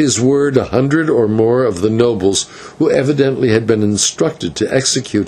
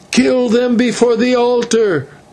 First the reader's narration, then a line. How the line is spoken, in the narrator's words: they shouted